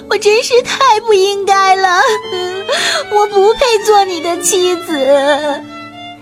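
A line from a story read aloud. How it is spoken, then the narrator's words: Crying while speaking. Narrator (Chinese): 她一边哭泣，一边对国王说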